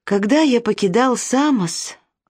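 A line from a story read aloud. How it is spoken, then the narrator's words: Sighed. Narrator (Russian): вздохнул Силасунт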